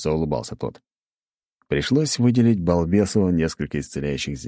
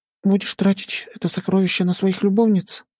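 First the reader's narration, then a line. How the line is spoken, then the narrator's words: Sighing little sister. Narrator (Russian): вздохнула сестренка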